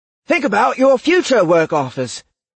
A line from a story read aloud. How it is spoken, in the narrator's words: Alder exclaimed, more than a little desperate